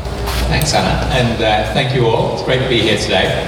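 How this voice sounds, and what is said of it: European accent. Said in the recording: “You might spot from the accent, but that's where home is”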